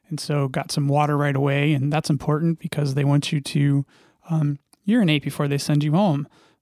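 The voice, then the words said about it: Rough, strained voice. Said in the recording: “your throat's a little jacked up, and apparently mine is still a little jacked up ... my voice hasn't been great”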